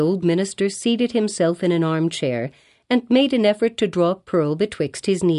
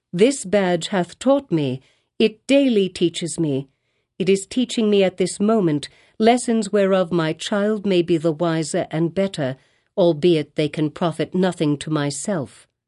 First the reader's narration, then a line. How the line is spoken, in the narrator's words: said the mother, calmly, though growing more pale